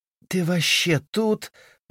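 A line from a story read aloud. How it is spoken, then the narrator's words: Moaning. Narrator (Russian): простонала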